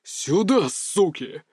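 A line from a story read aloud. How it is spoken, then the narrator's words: Growling. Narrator (Russian): рыкнул Леонид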